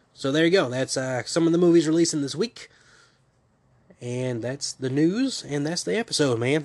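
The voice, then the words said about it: Voice cutting out, nasal, sick. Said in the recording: “my voice is going in and out horribly. I have to keep pausing to cough ... being nasally”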